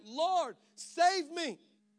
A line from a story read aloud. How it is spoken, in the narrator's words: Peter was afraid, and beginning to sink, he cried out